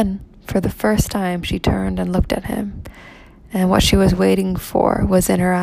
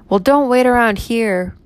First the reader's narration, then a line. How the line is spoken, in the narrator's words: cried the boy savagely